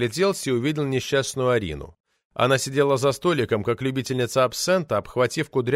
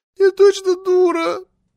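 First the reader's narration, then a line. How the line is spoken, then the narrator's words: Confessed through tears. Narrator (Russian): Сквозь слезы созналась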